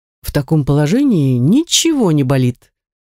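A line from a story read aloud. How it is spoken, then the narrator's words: Cheerful. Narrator (Russian): весело подытожил он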